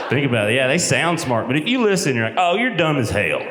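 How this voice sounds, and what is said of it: Southern Tennessee accent. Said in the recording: “originally from Crossville, Tennessee ... I know how the accent sounds. I'm aware. Sounds dumb.”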